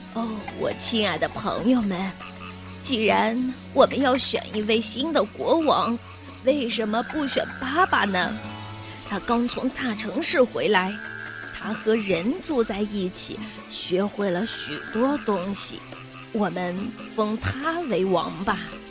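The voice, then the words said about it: Trembling old elephant's voice. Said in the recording (Chinese): “年纪最大的大象科尼利厄斯用颤抖的声音说”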